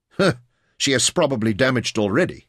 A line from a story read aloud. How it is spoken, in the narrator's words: Kayser laughed